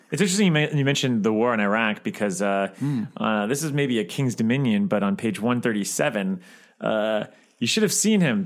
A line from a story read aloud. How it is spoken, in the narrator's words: Billy said grimly